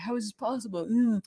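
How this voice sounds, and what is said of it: Imitated voice of fantasy characters. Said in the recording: “That's my impersonation of them”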